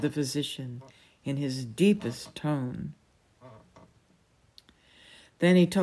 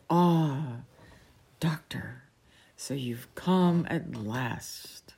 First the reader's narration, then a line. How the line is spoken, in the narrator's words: Roach sighed emphatically, and said